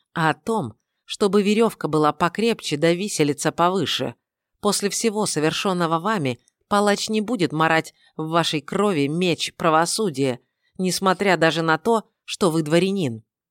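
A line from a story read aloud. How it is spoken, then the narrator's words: Hissing rider. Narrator (Russian): прошипел второй всадник ночи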